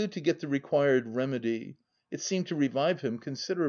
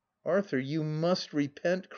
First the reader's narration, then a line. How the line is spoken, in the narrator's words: cried I, in a frenzy of desperation